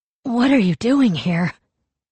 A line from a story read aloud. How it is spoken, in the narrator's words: Kavik asked, his voice small and hoarse